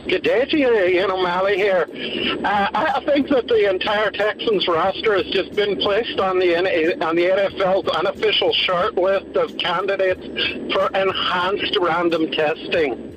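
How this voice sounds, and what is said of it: Put-on Irish accent. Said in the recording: “It's a pretty good Irish accent there.”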